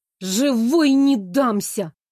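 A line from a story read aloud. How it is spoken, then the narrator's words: Warning through clenched teeth. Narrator (Russian): предупредила сквозь зубы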